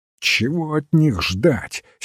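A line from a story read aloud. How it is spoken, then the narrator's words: Angry. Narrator (Russian): сердито сказал Кокспер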